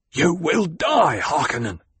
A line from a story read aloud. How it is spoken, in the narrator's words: the gladiator gasped